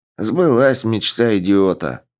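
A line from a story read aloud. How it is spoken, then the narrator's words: Muttered grumble. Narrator (Russian): прикуривая, буркнул он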